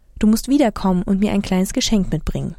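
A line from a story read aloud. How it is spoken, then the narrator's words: Gentle. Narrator (German): sanft gesagt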